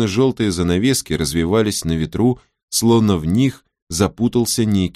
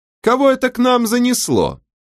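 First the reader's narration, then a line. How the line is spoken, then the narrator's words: Shouting, female. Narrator (Russian): крикнула она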